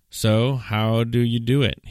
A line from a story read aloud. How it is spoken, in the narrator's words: he asked